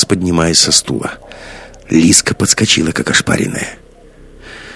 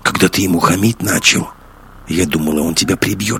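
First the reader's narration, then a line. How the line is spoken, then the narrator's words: Whispered. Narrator (Russian): шепнула Лиска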